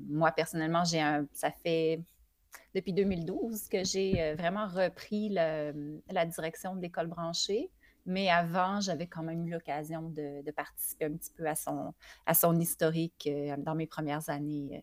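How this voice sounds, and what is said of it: Quebec French accent. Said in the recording (French): “le petit accent du Québec, ... Qui est vraiment adorable.”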